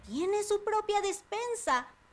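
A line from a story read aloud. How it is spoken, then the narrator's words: Surprised exclaiming. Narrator (Spanish): exclamó Panambí sorprendida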